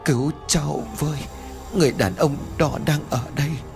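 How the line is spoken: Whispering. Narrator (Vietnamese): Yến nói thì thào

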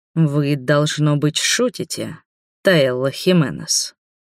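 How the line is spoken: Growled. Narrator (Russian): прорычал

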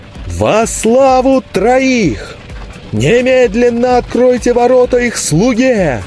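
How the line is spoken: Full-force shout cracking into falsetto. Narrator (Russian): Изо всех сил прокричал он, сорвавшись на фальцет

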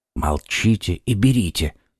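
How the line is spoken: Whisper. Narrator (Russian): шепнул Д'Артаньян

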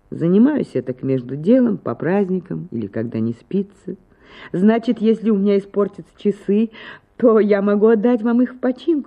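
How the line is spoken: Laughing question. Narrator (Russian): спросила Анна Акимовна, смеясь

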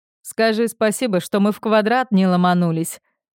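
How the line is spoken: Laughing. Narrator (Russian): Он смеялся в ответ

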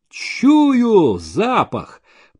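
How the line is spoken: Dramatic wail. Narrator (Russian): по-сусанински завопил Максимов

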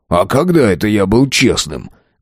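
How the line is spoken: Silly snort. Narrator (Russian): Глупо хмыкнул тот

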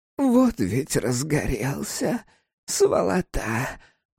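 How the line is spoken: Muttered. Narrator (Russian): пробормотала мать

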